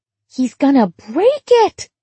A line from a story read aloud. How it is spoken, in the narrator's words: she squealed